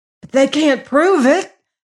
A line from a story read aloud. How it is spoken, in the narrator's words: gasped the prisoner